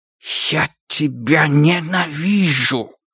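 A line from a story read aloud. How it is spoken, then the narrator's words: Hateful hiss. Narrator (Russian): прошипел он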